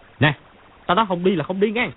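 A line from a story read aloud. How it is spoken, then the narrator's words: Loud shout. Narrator (Vietnamese): Chu Bá Thông dung quyền quát to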